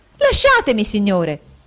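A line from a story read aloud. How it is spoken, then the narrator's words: Angry exclamation. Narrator (Italian): esclamò col cuore gonfio di collera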